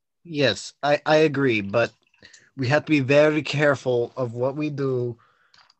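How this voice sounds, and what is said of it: Character voice with an accent. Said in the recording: “Are you trying to do an accent again? ... It just creeps in.”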